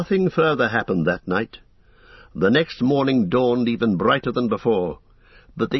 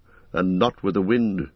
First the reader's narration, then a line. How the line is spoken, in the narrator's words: muttered Aragorn